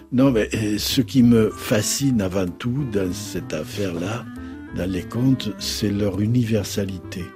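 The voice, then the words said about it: Occitan-accented French. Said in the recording (French): “votre accent occitan”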